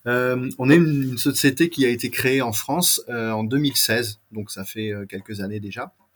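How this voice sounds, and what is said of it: Strong French accent. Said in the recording (French): “j'ai un accent très français”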